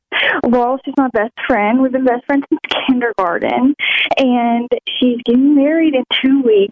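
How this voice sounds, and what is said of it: Southern US accent. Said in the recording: “I'm from Alabama. ... Oh, I hear the accent, girl.”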